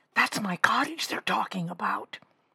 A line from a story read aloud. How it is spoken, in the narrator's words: she whispered to Susan